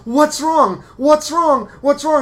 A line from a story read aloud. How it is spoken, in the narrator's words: Dylan's character starts screaming with us